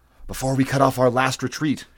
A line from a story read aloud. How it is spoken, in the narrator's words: hissed Taurus